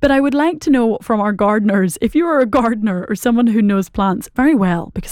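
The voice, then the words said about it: Irish accent. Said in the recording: “that's a very Irish accent ... in case you did not understand my Irish”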